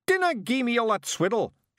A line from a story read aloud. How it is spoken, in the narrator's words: shouted Rob, in rage